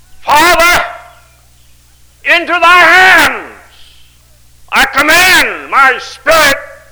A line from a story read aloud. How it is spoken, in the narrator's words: Jesus cried with a loud voice